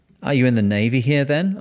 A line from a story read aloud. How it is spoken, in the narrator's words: I asked